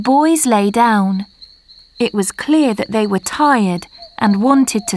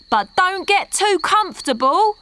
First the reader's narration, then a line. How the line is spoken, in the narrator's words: shouted the other